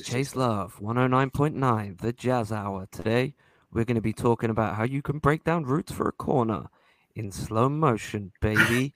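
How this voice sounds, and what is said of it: Smooth late-night radio DJ voice. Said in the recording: “His other act Chase Love. It, it's it's a midnight uh, DJ voice.”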